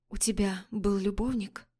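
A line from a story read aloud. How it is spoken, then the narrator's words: Young woman whispering. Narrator (Russian): прошептала девушка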